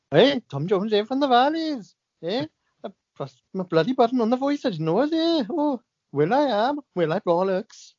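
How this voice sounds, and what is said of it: Welsh accent impression. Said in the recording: “if only I could do the accent like you.”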